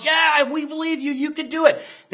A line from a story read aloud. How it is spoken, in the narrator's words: Everyone in the crowd cheers and yells